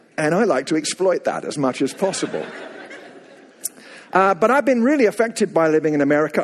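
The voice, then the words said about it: Slight English accent. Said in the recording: “you can probably hear the slightest tinge of an accent ... I go back to England about every 8 weeks for ministry purposes and also to get my accent refurbished”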